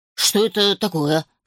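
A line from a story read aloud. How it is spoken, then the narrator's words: Snort. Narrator (Russian): хмыкнул Алфи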